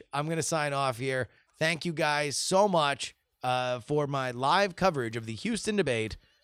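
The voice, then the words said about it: Hoarse, worn-out voice. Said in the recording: “my voice is trash, the way that Bernie's voice was trash”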